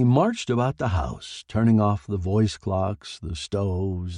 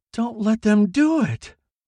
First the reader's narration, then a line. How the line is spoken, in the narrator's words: wailed Peter at the ceiling